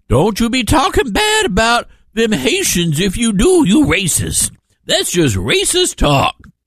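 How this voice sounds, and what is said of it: Maxine Waters impression, rough accent. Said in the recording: “That's Maxine Waters. I got to work on the accent.”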